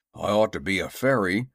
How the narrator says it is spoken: grumbled Jim

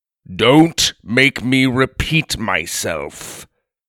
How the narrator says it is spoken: thundered the giant

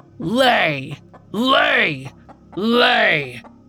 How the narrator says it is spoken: his chin resting on his massive chest as he barked out

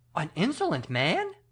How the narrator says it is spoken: I exclaimed, in such a tone that the king stopped suddenly short

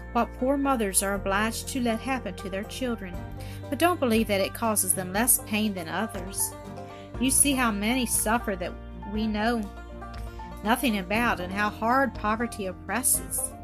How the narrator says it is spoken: replied the doctor soothingly

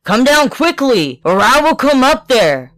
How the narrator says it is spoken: Bluebeard, with a great cutlass in his hand, called out with all his might to his wife

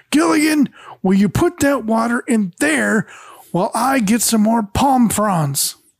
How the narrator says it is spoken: yell

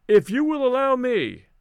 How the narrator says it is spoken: I called out

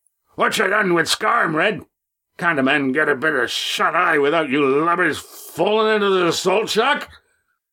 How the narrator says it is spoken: thundered

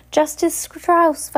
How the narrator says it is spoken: Violet cried

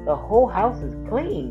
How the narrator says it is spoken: Doc exclaimed

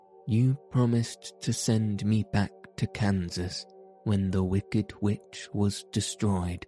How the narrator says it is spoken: said the girl

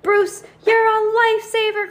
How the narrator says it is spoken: cried Heidi

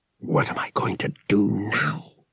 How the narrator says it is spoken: he snarled

